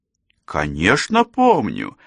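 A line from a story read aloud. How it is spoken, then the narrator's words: Exclaimed. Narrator (Russian): воскликнула она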